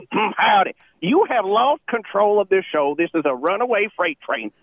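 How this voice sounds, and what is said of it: Southern US accent. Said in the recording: “I was born with this accent, so obviously I'm from the South.”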